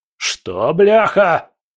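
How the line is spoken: Deafening yell. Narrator (Russian): Потемкин заорал так, что в соседнем кабинете, наверное, упал со стены портрет российского императора

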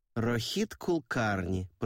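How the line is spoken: Drawling. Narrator (Russian): протянула Савитри

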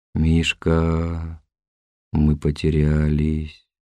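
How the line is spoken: Groaned. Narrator (Russian): простонал Куцапов

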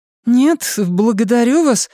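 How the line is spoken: High hurried child's voice. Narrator (Russian): ее рот произнес высоким голосом ребенка, спешащего домой

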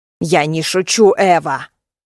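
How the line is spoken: Hiss. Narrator (Russian): прошипела

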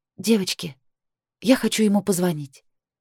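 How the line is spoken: Quiet, tearful. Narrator (Russian): сказала тихо, стирая со щеки одинокую слезу

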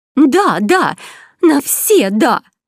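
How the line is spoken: Exclaimed. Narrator (Russian): воскликнула леди Сван

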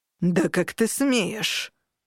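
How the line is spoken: Menacing growl. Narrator (Russian): Дернут рычал довольно грозно

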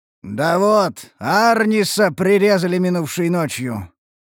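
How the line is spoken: Booming demon voice. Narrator (Russian): прогремел крупный демон

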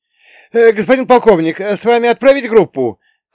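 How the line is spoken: Shouting after someone. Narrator (Russian): крикнул вслед парень из охраны

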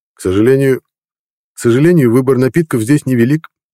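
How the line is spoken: Said cheerfully. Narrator (Russian): весело сказал Игорь

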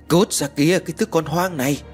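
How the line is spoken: Yelled. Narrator (Vietnamese): lão ta liền hét lên

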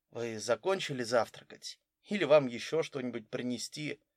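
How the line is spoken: Very quiet question. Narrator (Russian): подошедший официант очень тихо спросил

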